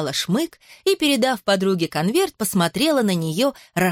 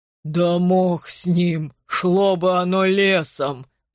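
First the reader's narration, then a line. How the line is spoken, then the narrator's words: Grumbling. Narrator (Russian): проворчал Леший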